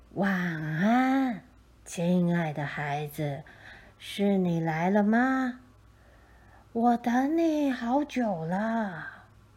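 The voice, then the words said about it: Kind, gentle old man's voice. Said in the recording (Chinese): “用和善的声音说”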